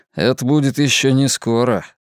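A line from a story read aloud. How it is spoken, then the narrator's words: Grim joke. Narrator (Russian): мрачно пошутил Луис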